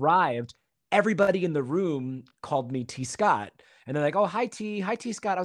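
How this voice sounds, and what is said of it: Usual voice. Nothing is said of it.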